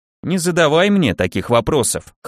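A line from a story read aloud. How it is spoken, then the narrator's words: Snorting. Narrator (Russian): хмыкнул Келлер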